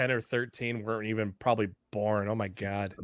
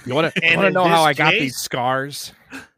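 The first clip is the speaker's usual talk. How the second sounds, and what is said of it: Imitation of the Joker's voice. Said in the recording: “That's actually a really good impression.”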